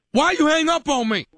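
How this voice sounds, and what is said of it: Yelling, angry raised voice. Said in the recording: “why are you yelling at me?”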